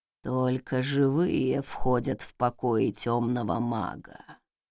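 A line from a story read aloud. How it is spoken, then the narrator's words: Eerie creaking voice. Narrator (Russian): проскрипел потусторонний голос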